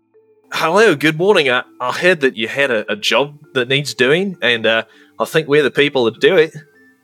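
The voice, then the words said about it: Deliberately bad Australian accent. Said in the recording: “my very best, terrible Australian accent”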